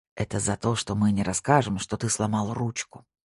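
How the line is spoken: Whisper. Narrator (Russian): прошептал очкарик

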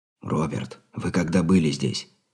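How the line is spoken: Whispered question. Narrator (Russian): шепотом поинтересовался Андрей

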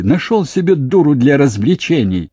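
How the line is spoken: Scornful laughter. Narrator (Russian): она уничтожающе расхохоталась

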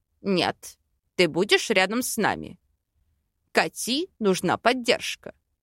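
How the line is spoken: Stern reply. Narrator (Russian): Строго ответил Аринель

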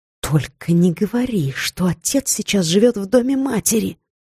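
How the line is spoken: Hissed through teeth. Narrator (Russian): прошипела я сквозь зубы

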